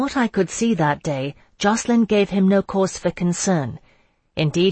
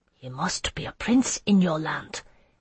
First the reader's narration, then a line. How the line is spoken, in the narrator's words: Hatefick whispered to me, awed